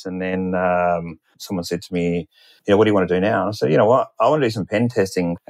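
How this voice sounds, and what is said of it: Australian accent. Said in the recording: “in Australian banks, which you could probably tell from my accent.”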